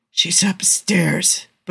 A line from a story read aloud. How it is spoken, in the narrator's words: rasps, his hoarse, barely there voice cracking at first use